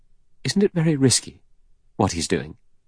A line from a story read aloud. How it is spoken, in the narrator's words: Vera said anxiously